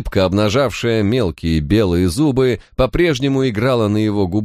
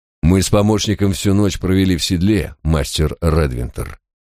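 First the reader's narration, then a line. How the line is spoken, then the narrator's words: Cold, authoritative reply. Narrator (Russian): ответил я довольно холодным тоном, желая с самого начала утвердить свое главенство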